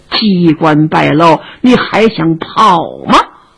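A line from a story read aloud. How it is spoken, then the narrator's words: Low voice. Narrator (Chinese): 门外头有人低声说话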